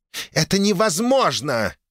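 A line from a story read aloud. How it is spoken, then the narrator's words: Angry growl, woman. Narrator (Russian): гневно рыкнула супруга патриарха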